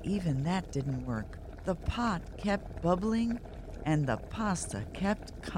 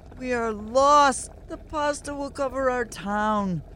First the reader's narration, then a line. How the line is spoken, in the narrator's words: the townspeople cried